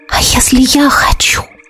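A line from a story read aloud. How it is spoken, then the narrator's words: Entranced whisper. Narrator (Russian): прошептала я, загипнотизированная его взглядом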